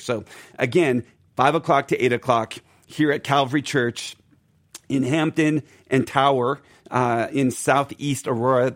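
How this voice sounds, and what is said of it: Strained, unwell voice. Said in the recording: “give my voice a little rest ... Get well soon. I hope your voice gets better.”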